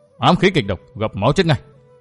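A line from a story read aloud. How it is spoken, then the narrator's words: Indignant, resentful voice. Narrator (Vietnamese): Vương Vinh với giọng phẫn hận nói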